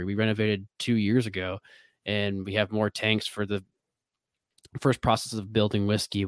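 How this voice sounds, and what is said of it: American Midwestern accent. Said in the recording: “I open up my mouth this Midwestern accent”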